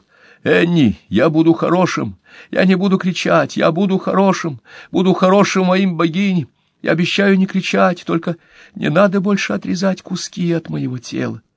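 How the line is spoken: Inner voice screaming. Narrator (Russian): другой голос внутри него кричал

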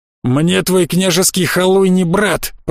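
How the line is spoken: Sullen growl. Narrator (Russian): прорычал набычившийся Захар

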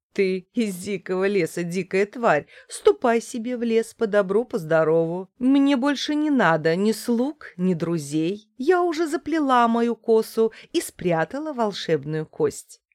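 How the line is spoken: Laughing. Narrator (Russian): Женщина засмеялась и сказала

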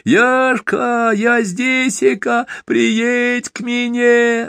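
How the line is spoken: Joyful piercing clear shout. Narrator (Russian): радостно закричал Донька пронзительно чистым голосом

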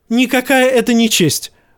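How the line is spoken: Shrieking. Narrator (Russian): взвизгнул Джоффри

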